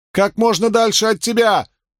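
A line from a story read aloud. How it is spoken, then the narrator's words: Screaming. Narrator (Russian): завопила Авиенда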